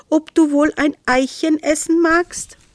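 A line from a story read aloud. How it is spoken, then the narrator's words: Called out. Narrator (German): rief Isolde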